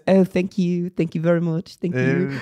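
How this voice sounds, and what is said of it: Put-on New Zealand accent. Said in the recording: “That's my New Zealand accent.”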